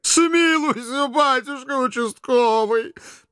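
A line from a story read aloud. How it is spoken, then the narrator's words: Tearful sobbing. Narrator (Russian): плаксиво скривив губки, всхлипнула вдова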